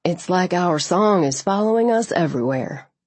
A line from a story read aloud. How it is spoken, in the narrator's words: he said